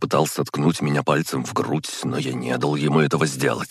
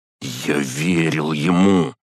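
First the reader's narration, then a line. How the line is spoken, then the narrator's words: Hiss. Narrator (Russian): прошипел Горшков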